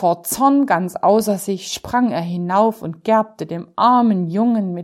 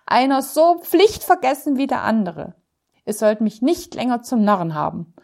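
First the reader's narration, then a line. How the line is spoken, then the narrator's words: Exasperated shout, tailor. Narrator (German): rief der Schneider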